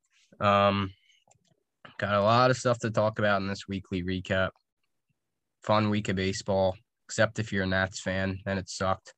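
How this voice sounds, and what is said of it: Sick, rough voice. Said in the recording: “Excuse my voice. I'm a little under the weather”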